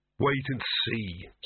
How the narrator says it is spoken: said Victor hoarsely

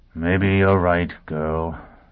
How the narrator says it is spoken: he said wearily

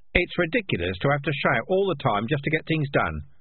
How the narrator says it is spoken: said Darktan

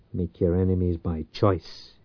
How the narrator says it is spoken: he muttered

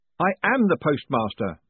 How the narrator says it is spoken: Moist shouted

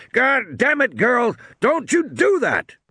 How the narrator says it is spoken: he bellowed

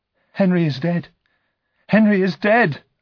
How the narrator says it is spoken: cried

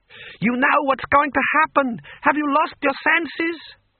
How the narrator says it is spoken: he shouted

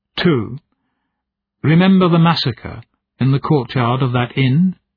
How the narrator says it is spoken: She asked calmly

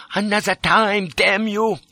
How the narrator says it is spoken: cried

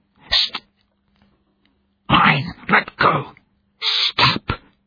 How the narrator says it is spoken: she hissed

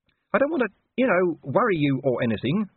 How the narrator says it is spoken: whined Gaspode

